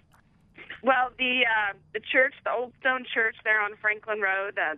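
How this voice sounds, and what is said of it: Usual voice. Nothing is said of it.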